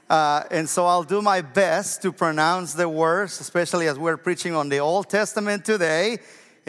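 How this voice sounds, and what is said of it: Non-native English accent. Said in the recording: “I have an accent when I speak English. I learned English too late.”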